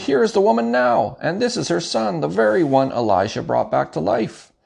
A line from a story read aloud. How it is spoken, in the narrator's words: Gehazi exclaimed